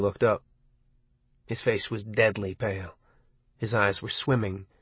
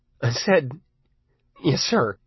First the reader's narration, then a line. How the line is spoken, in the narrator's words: Arnie said in a trembling voice